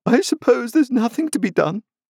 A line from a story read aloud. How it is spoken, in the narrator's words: exclaimed Camilla